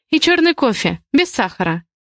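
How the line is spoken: Forced calm. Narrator (Russian): стараюсь говорить спокойно

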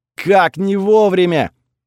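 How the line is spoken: Yelled with cursing. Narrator (Russian): завопил Готфред, заодно смачно ругнувшись

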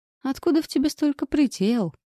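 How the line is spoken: Chuckle right in ear. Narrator (Russian): хохотнул Джеймс мне прямо в ухо

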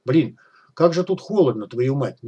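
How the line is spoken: Displeased grumble. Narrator (Russian): недовольно проворчал он

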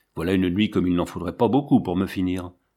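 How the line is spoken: Despairing grumble. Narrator (French): grommelait François désespéré

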